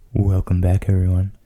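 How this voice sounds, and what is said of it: Close-mic whisper. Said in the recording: “Just like a little whisper right up against the mic. Get everybody nice and uncomfortable.”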